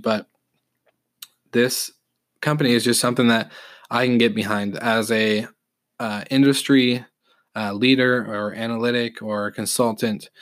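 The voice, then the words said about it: Slightly raspy voice from a cold. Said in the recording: “hear it in my voice on this podcast just because I'm a little getting over a little cold, feeling a little raspy”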